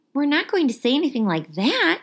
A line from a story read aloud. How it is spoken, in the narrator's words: Harry shouted